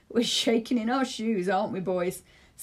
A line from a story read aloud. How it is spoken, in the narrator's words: Salam laughed